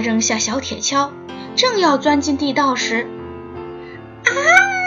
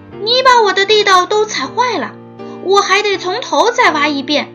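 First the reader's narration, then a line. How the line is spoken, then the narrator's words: Angry shout. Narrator (Chinese): 小鼹鼠生气地喊道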